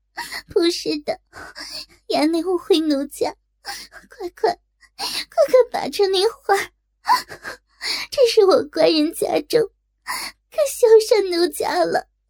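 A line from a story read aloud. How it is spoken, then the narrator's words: Crying, pleading. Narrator (Chinese): 哭道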